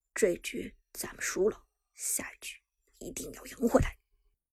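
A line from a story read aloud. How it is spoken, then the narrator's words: Low, heavy voice. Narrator (Chinese): 空前的压抑，苏哲沉声说道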